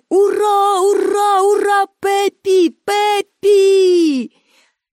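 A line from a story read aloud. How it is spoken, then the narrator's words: Crowd shouting. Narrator (Ukrainian): І всі глядачі також закричали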